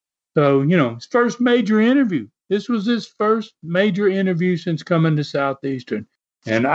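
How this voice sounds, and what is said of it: Usual voice. Nothing is said of it.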